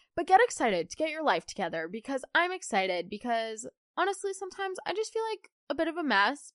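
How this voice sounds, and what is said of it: Hoarse, unwell-sounding voice. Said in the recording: “It's either a cold or it's my allergies ... Oh, yeah, my voice. So, sorry about my voice.”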